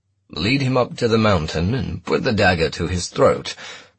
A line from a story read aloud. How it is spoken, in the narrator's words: Milo said in his sonorous voice